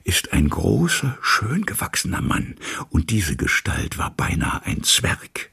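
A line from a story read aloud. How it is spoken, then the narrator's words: Whispered. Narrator (German): verfiel ins Flüstern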